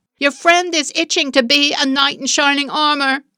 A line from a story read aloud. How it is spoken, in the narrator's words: the girl shouted